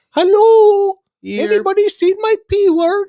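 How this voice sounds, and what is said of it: Put-on Scandinavian accent. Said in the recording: “she had that Scandinavian accent.”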